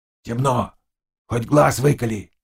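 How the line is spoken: Quiet. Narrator (Russian): тихо сказал Заглоба

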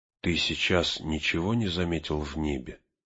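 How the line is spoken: Barely audible whisper. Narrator (Russian): еле слышным шепотом спросил он

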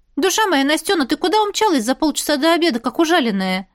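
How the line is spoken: Cheerful voice over phone. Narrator (Russian): Весело прозвучало в трубке

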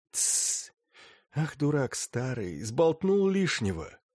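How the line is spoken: Whisper. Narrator (Russian): Савелий перешел на шепот

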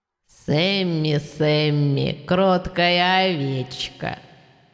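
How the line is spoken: Hissing. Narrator (Russian): Шипение

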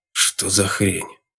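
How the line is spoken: Quiet angry exhale. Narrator (Russian): с тихой злобой выдохнул он

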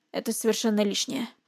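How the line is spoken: Mumbled. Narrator (Russian): промямлил он

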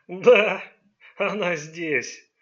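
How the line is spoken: Confirming while roaring with laughter. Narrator (Russian): подтвердил, закатываясь хохотом

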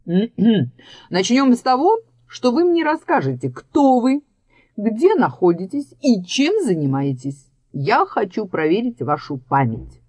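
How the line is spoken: Throat-clearing, trying to sound imposing. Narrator (Russian): Громко откашлившись и стараясь придать своему голосу внушительность, Егор сказал

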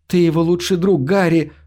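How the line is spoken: Moaning. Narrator (Russian): простонала

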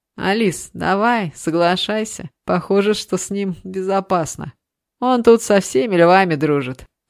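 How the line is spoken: Laughing. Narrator (Russian): рассмеялся Дима

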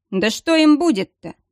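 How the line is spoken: Snorting. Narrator (Russian): фыркнул маг

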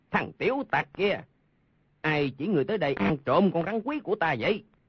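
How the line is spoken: Angry shout. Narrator (Vietnamese): Lương Tử Ông tức giận quát

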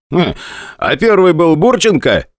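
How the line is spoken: Cheerful, from behind. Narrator (Russian): весело сказал позади меня Белецкий

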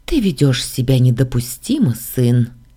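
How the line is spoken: Gentle reproach. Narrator (Russian): Мягко пожурила его королева

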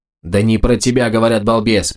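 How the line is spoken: Habitual snapping retort. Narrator (Russian): привычно огрызнулся Больт

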